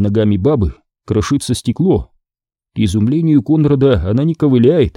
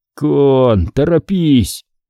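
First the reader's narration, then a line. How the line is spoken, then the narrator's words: Hoarse, to himself. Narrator (Russian): хрипит он себе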